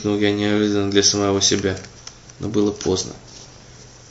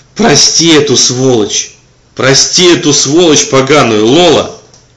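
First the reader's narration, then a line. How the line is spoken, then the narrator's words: Hysterical pitying shout. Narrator (Russian): Заорал я в припадке бабьей какой-то жалости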